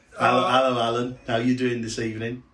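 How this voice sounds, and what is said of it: Imitates another person's voice. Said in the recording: “That's the last impersonation of John.”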